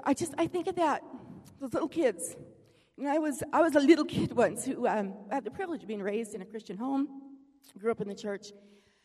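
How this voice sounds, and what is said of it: Choked-up, emotional voice. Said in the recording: “I'm a little choked up there.”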